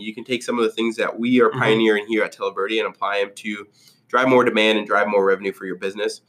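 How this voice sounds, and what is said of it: Voice sounds sick. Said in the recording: “Apologize for my voice. I've been sick all week”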